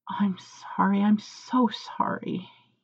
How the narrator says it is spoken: he mumbles into his palm

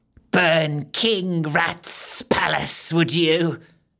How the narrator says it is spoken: spat

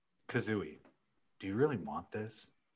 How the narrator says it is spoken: He asked her, his voice gentle, yet holding a strong undertone of desire

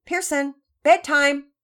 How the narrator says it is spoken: Daddy Peters yelled from upstairs

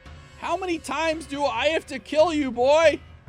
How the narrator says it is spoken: Jafar shouted

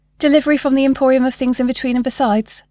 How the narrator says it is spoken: Bob rattled off quickly

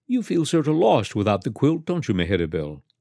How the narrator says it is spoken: Sophia said kindly

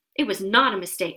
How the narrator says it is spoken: said Harry angrily

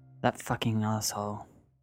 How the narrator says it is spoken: Elise muttered to herself

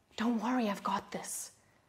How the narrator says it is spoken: He's whispering

